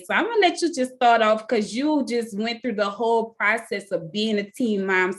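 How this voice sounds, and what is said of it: New Orleans accent. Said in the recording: “I love your accent ... I have this thing with um like New Orleans accents”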